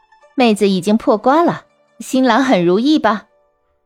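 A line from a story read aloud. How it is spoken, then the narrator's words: Young woman, laughing teasingly. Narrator (Chinese): 一女子，年纪约十八九岁，笑着对狐女说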